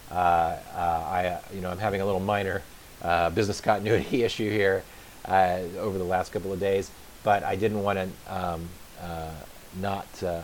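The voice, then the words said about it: Raspy, hoarse voice. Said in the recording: “I apologize for the sound quality. I apologize for my raspy voice.”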